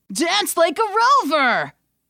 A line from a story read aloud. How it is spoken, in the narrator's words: The remaining crowd roared